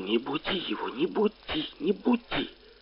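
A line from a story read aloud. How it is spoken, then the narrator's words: Hissing. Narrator (Russian): шипела на папу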